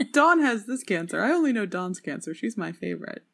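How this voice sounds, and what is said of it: Imitates another person's voice. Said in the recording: “That was my Lurleen impression. ... She probably has a southern accent.”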